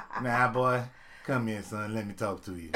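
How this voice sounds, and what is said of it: Imitates another person's voice. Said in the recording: “I hate your TI accent.”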